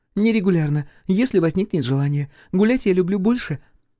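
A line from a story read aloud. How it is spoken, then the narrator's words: Hiccuping giggle, muffled. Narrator (Russian): сказала, икнула и хихикнула, прикрыв ладошкой рот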